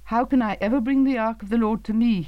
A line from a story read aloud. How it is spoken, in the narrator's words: exclaimed